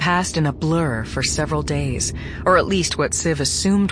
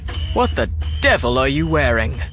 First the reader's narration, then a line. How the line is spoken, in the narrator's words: barked